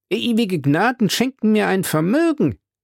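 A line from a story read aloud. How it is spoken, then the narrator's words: Exclaimed. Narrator (German): rief er aus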